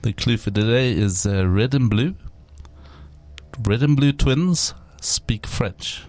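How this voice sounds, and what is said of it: Put-on French accent. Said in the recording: “Can I speak in a French accent?”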